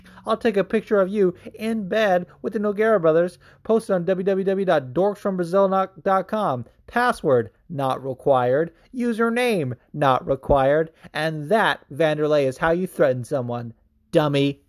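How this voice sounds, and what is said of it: Chael Sonnen impersonation. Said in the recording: “if you think anyone can do a better Chael Sonnen impersonation, you're wrong”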